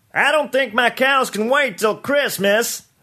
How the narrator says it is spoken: someone called out

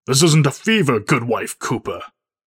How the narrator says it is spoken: Reverend snaps back

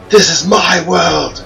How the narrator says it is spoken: screamed

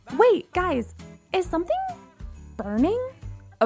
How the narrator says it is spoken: a voice asked

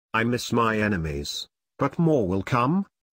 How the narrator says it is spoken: the Reaper sighed sadly

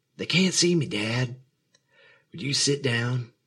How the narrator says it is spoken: said, still whispering

